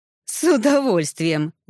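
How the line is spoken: Loud guffaw. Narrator (Russian): захохотал Ирс

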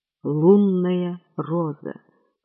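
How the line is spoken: Mutter. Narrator (Russian): пробормотал он

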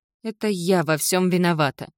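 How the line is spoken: Shaky gasping breath. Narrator (Russian): судорожно выдохнула Кендалл

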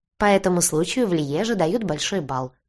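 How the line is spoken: Mocking. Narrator (Russian): насмешливо сказала Гелли

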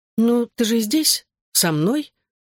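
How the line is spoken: Calm motherly reply. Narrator (Russian): спокойно ответила мама

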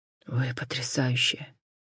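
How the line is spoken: Breathed out. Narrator (Russian): выдохнул он

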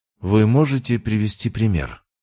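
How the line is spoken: Calm, matter-of-fact woman. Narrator (Russian): Ее голос прозвучал спокойно, почти буднично

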